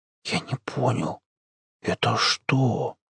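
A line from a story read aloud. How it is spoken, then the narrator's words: Whispered. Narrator (Russian): прошептал Жорик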